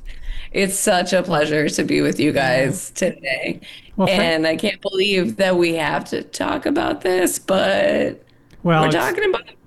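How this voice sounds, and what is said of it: Scratchy voice. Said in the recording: “My voice is scratchy”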